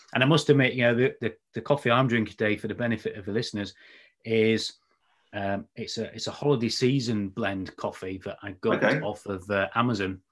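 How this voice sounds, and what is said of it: Slightly raspy voice. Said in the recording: “I've been talking all day and I'm a bit raspy now”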